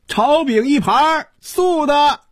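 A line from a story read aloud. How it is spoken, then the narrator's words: Sudden theatrical shout. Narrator (Chinese): 忽然从身后传来一声像京戏里叫板一样的喊声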